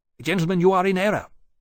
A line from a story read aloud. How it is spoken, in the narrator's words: Hammond said sharply